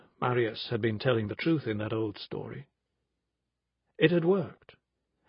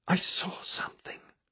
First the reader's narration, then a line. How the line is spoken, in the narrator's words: Benedict whispered